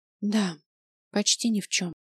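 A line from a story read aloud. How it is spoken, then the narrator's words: Exhausted whisper. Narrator (Russian): обессильно опустив плечи, прошептала Ева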